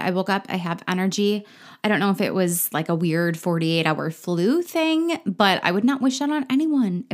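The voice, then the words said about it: Slightly scratchy, hoarse voice. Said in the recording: “My throat is still a little bit scratchy, so my voice is probably going to be a little bit different. I might have to clear my throat more often.”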